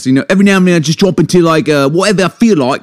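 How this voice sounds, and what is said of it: Put-on British London accent. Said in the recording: “this right here is probably like a British London type thing”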